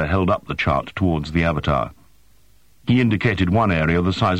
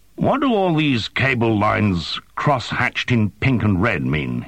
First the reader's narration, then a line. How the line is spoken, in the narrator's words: he asked